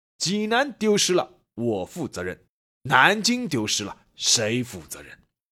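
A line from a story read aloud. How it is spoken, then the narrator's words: Angry retort. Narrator (Chinese): 韩复榘愤怒还击，说了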